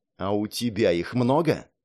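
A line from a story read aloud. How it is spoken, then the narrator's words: Angry whisper. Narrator (Russian): злым шепотом спросил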